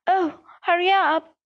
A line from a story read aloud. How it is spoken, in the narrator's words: Ron moaned